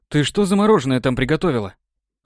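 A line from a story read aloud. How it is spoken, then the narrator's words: Quick, slightly frightened question. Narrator (Russian): Сразу же спросил ее немного испуганно, поскольку уже познал практикуемое ей искусство кулинарии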